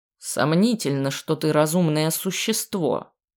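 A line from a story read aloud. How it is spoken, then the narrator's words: Grumbling. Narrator (Russian): проворчал Дубрав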